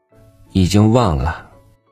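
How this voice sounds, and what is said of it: Listless, lifeless voice. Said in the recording (Chinese): “用无精打采的声音说”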